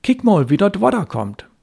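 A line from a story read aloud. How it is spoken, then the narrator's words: Calling out. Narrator (German): rief er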